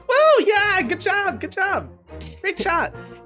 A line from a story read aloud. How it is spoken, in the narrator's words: you hear Thistle scream